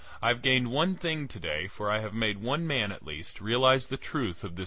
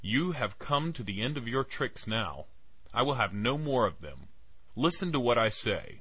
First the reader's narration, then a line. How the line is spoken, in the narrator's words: I cried